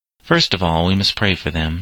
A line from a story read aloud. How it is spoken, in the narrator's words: said her husband gravely